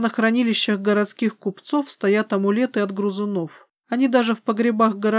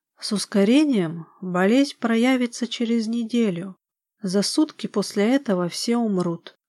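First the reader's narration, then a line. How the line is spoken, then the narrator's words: Plain. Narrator (Russian): ответила интуиция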